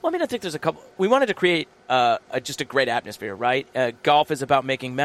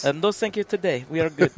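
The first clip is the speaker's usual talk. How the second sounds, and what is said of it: Little accented voice like Consuela. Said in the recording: “In that voice? In your little voice? ... Like Consuela from the Family Guy”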